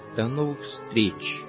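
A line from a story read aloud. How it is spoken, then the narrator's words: Condescending farewell. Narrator (Russian): сказал он ей, снисходительно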